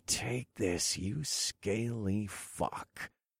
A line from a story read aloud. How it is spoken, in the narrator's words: I muttered